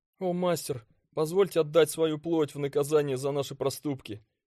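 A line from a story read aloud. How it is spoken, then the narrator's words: Pleading. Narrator (Russian): взмолился первый доставщик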